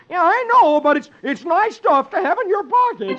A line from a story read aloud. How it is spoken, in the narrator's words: Donald yells